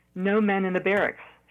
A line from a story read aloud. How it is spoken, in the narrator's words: she said